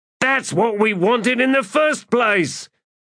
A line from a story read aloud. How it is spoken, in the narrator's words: Ansi shouted